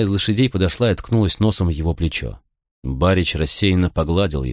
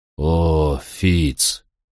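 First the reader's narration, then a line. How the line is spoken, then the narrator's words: Sad. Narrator (Russian): сказал он печально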